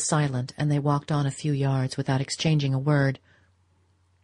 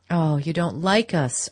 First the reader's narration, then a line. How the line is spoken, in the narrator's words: Archer exclaimed